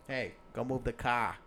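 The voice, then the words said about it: Boston accent. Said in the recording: “I could totally see myself like a Boston accent”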